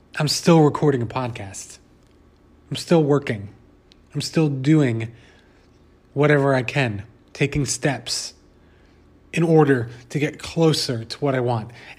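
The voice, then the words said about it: Hoarse, failing voice from a cold. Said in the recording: “I am losing my voice. I have a weird, funky cold thing happening.”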